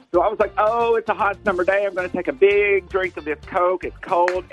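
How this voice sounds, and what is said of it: Southern twang accent. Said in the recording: “he's got a southern twang”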